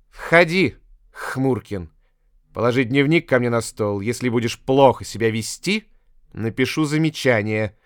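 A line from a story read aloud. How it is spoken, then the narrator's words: Rude reply. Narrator (Russian): грубо ответила учительница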